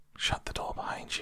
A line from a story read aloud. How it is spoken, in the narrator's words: whispered